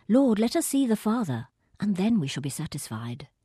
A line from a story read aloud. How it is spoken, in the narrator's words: blurts out